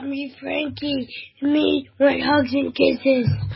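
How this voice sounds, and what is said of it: Child's Frankenstein monster voice. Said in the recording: “Do your impersonation of Frankenstein for us.”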